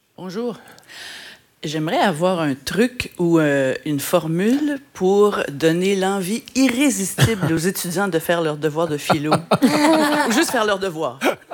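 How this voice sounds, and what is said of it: Slight Québécois French accent. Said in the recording (French): “Petit accent québécois peut-être”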